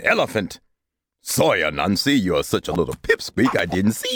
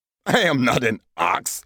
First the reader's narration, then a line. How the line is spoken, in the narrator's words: Elephant chuckled